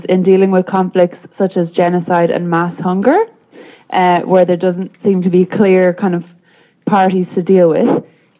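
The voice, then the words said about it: Strong accent, speaking fast. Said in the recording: “That was so fast. ... My accent is quite strong. I'll have to slow down.”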